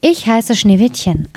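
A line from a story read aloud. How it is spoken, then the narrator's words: Plain answer. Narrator (German): antwortete es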